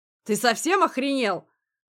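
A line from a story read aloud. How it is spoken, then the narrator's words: Sudden roar. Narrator (Russian): мгновенно взревел Агулов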